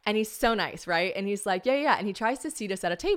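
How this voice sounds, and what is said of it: Usual voice. Nothing is said of it.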